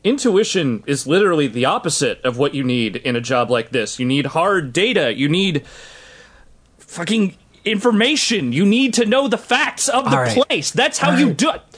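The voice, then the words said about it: Raised, loud angry voice. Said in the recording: “Sorry, I'm raising my voice.”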